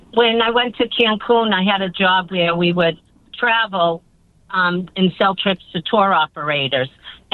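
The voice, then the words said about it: Boston accent. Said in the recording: “When did your Boston come out? ... they thought my accent was amazing”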